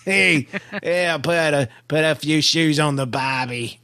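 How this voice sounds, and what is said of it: Bad put-on Australian accent. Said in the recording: “raised in Australia ... my accent was a little off ... It wasn't even that good. That's terrible.”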